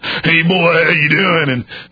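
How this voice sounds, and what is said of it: Put-on hillbilly accent. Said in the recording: “Why don't you lay off the hillbilly accent?”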